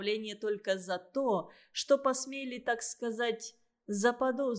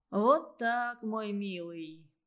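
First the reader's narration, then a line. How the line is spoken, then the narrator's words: Sighing. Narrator (Russian): Бабаян вздохнул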